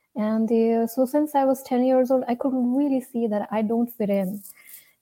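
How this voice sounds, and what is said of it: Indian English accent. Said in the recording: “my accent, probably you can see I'm from India”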